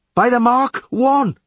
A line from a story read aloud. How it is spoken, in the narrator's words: yelled the leadsman